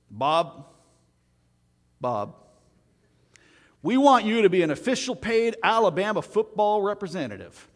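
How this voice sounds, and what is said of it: Put-on Alabama Southern accent. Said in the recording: “that's my best Alabama accent right there”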